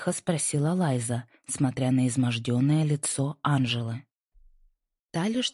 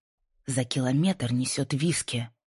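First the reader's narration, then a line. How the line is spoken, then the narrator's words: Furious hiss. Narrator (Russian): Яростно прошипела Лайза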